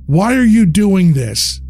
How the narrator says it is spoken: I shouted at them

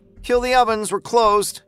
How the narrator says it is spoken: Rochelle hollered

